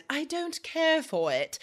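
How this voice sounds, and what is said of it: Poor put-on British accent. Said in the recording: “like you need a British accent... That was a terrible accent”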